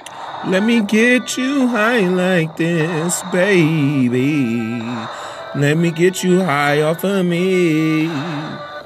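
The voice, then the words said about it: Scratchy singing voice. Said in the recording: “My voice is scratchy”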